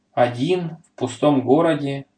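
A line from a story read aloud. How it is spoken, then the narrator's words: Plain. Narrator (Russian): сказал Петя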